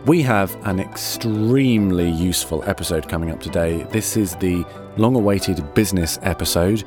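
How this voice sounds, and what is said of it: Slightly strained, tired voice. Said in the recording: “my voice sounds a little strained. I've had a day of voicing today, so I'm a little delicate.”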